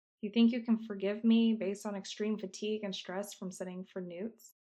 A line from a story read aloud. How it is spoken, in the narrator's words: Lily sighed